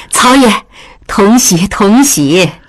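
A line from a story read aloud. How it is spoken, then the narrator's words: Cheerful, laughing. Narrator (Chinese): 曹氏笑着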